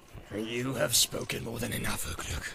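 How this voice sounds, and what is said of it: Sneering evil character voice. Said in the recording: “sneered the evil voice.”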